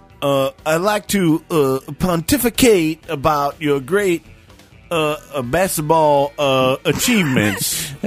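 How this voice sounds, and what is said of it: Imitates another person's voice. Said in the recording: “Is Jesse Jackson here? ... That is a great impression.”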